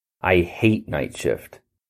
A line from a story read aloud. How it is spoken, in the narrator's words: Philip Costadine grumbled to no one in particular